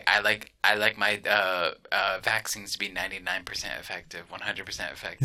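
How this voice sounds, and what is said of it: Donald Trump impression. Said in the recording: “doing a Donald Trump impersonation.”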